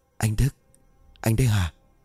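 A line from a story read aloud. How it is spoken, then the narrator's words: Whispered call. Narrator (Vietnamese): miệng thì thầm gọi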